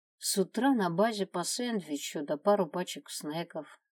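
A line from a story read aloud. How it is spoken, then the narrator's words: Sad reply. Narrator (Russian): грустно ответил Джаспер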